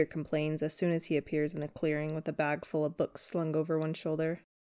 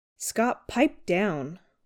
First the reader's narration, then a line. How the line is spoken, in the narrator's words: Lydia snaps